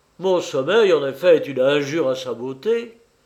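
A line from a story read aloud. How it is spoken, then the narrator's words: Exclaiming. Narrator (French): s'écria-t-il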